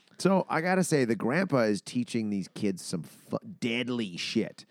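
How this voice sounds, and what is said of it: Usual voice. Nothing is said of it.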